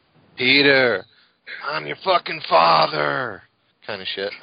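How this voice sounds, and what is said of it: Imitates another person's voice. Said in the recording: “doing a Michael Rooker impression”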